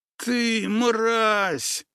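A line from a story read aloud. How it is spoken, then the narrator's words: Moaning. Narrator (Russian): застонал он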